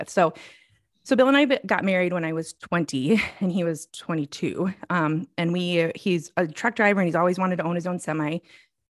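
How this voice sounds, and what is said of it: Slightly out of breath, deep breaths. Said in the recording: “I feel a little bit out of breath right now. So if I'm taking deep breaths, that's why... my breathing gets heightened”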